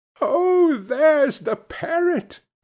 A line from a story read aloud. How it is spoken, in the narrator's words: cried Scrooge